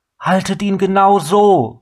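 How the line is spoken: Called. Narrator (German): rief Abina

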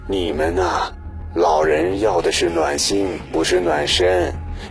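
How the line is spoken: Old man sighing. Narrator (Chinese): 老舅爷叹气道

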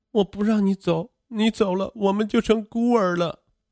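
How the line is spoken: Frightened crying. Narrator (Chinese): 王小璐害怕极了……哭泣道

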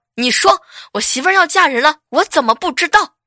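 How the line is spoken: Angry. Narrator (Chinese): 老板发飙了，怒气冲冲的 说

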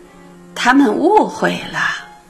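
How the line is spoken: Embarrassed laugh. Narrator (Chinese): 我脸慢慢红起来，过一会儿笑道

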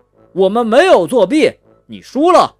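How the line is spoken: Loud. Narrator (Chinese): 蛋挞大声说

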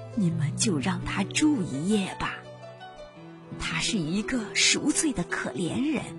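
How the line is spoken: Old woman speaking softly. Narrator (Chinese): 老妇人小声的说

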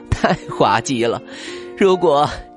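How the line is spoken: Old woman laughing hard. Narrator (Chinese): 熊奶奶 笑弯了腰

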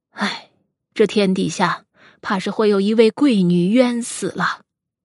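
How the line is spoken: Sighing. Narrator (Chinese): 周宣叹道

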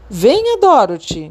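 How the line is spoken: Wizard shouting. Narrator (Portuguese): gritou o mágico

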